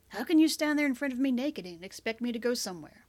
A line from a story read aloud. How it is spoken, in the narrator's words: He laughed when she tossed his pants at him